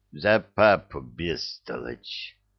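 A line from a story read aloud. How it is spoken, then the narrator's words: Hissing rebuke. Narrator (Russian): прошипела правая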